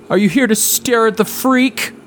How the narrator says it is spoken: says in a loud voice

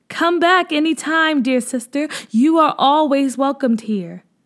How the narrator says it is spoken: one of the girls yelled down

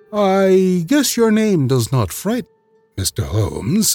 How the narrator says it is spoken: said he coolly

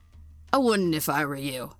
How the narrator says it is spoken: the Mando grunted without turning around

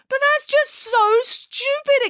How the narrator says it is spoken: exclaimed Frida

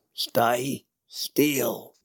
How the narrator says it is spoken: grunted the dwarf

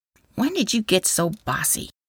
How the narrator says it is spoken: Katie mumbled

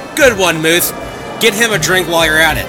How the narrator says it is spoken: Tommy shouted

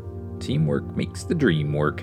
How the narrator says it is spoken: Tim responded, chuckling at the cheesiness

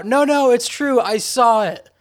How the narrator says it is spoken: someone who wasn't even counting screamed out

